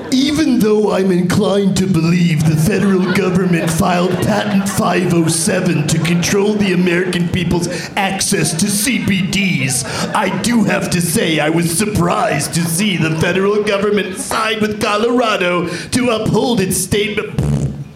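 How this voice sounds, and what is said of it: Imitates another person's voice. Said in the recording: “You sound just like him. ... That was my impression of James Andomian's impression of right? Jesse Ventura.”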